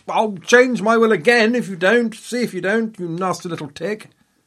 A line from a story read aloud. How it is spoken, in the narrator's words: screech